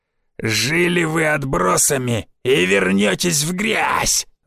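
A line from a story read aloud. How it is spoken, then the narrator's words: Growled. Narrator (Russian): Зарычал молот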